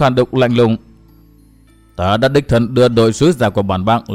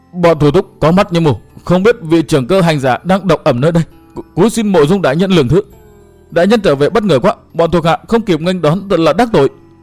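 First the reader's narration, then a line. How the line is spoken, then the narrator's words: Trembling, fearful. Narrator (Vietnamese): Hắn cất giọng run run đầy vẻ sợ hãi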